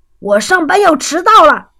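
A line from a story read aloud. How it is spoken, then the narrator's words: Shouting. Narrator (Chinese): 福特先生吼道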